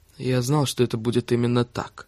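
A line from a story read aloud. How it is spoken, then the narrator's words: Muttering. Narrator (Russian): пробормотал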